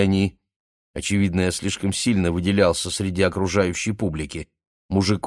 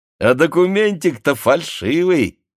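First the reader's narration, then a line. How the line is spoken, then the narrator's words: Joyful shout. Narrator (Russian): радостно закричал милиционер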